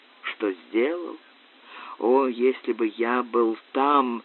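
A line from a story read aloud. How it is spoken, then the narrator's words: Dull moan. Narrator (Russian): Макферлан глухо застонал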